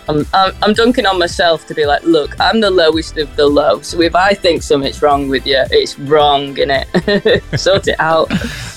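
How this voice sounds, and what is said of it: Softened northwest Scouse twang. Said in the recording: “Do I detect like a sort of northwest accent, a twang in there? ... there's like a little bit of a twang, but it's very much softened ... that Scouse accent got bullied out of me”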